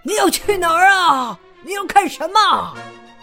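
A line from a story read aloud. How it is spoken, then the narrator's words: Calling out from above. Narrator (Chinese): 圣诞老人从房顶上冲着狼叫道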